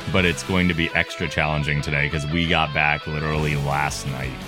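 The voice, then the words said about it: Tired, deeper voice. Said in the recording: “very tired, dulcet podcast voice ... Sometimes I get a deeper voice when I'm tired”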